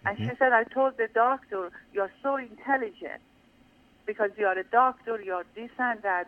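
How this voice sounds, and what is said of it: Non-native foreign accent. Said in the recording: “I'm a foreigner. Look at my English. Look at my accent.”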